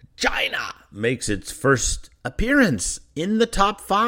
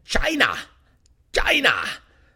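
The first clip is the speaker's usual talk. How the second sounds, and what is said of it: Imitates another person's voice. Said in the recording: “my Trump impression.”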